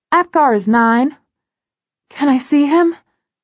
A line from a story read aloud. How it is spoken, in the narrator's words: I gasp